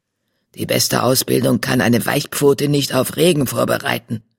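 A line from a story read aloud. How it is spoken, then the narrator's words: Growl. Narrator (German): knurrte eine andere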